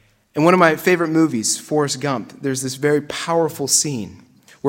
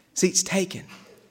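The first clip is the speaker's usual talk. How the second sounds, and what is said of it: Put-on Alabama Southern accent. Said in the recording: “In that great Alabama accent.”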